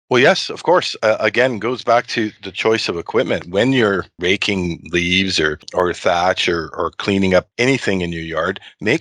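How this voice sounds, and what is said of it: Northern Ontario accent. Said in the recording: “That Northern Ontario accent there, you really hear it”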